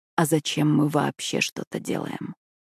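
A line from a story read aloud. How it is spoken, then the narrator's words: Whisper muffled against neck. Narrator (Russian): прошептал он мне в шею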